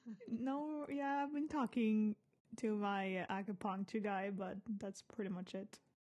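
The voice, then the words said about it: Hoarse voice. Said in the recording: “God, I'm hoarse... I'm a little bit hoarse when I talk”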